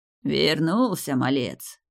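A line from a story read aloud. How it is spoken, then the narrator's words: Hoarse rasp. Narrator (Russian): прохрипел он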